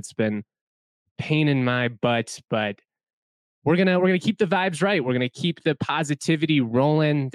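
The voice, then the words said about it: Strained, sick-sounding voice. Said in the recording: “I'm hoping that my voice is able to last for this one. As you all know, I've been battling bronchitis the past week and a half or so.”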